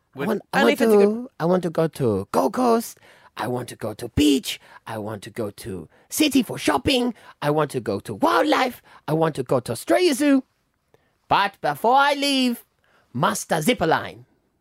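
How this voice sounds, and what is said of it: Mixed, made-up foreign accent. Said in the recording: “I'm allowed to do an accent ... Do the accent ... What accent was it? ... I took every nationality and put it together.”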